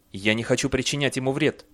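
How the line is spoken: Hurried speech. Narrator (Russian): торопливо заговорил Бейли

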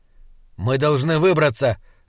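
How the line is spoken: Sharp. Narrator (Russian): резко сказал Слудик

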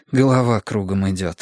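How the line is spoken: Sighing. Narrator (Russian): вздохнул я

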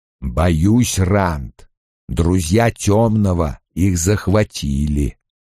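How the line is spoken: Slow. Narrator (Russian): медленно произнес Лойл

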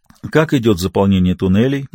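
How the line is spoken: Soft question. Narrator (Russian): мягко спросил он

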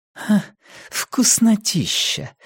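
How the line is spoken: Forced out. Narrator (Russian): выдавила Нина

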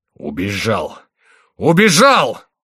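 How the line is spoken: Shouted in sepulchral voice. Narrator (Russian): закричал Генрих таким гробовым голосом

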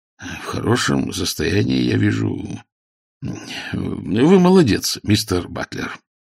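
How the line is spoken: Embarrassed mumble. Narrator (Russian): Поскольку сам Ваймс тоже был сконфужен, он пробормотал

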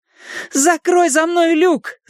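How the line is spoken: Shouted. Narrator (Russian): закричала я

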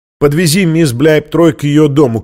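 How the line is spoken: Shout. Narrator (Russian): крикнул он шоферу

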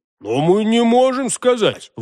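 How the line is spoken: Exclamation. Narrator (Russian): воскликнул Хуги

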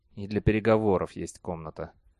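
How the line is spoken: Muttering under breath. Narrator (Russian): пробурчал себе под нос Бейли

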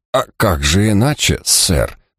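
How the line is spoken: Muttered. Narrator (Russian): пробормотал он

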